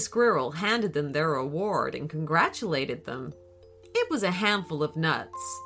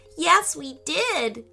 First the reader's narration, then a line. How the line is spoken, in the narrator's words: cried Izzy